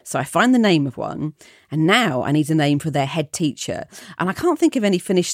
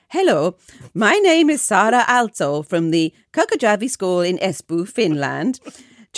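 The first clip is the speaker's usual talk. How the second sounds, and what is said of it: Poor Finnish accent, sounds Welsh-ish. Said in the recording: “the Finnish accent I did was brilliant when I practiced it in my head beforehand ... I couldn't quite believe the sounds that were coming out of my mouth ... it was like Welsh, but not Welsh. I mean, it was something very strange.”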